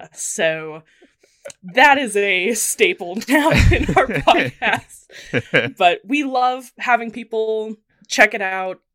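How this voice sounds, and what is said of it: American accent. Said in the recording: “as you can tell by my accent, I'm American”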